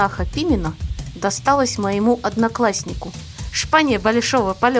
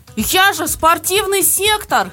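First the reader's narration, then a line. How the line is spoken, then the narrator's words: Loud wail. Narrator (Russian): завопил он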